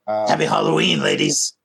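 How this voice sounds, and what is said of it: Impression of a Highlander character. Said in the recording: “That's a good from the Highlander... Your impression was spot on”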